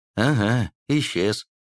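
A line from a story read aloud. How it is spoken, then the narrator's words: Lifeless echoing voice. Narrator (Russian): словно эхом вторил безжизненным голосом Аникин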